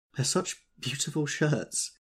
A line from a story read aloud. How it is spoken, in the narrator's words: she sobbed, her voice muffled in the thick folds